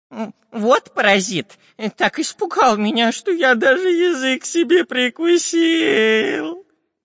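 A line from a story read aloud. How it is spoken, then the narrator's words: Whimpering, long-nosed spy. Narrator (Russian): прохныкал длинноносый шпион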